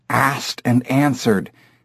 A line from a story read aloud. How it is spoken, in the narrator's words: whispered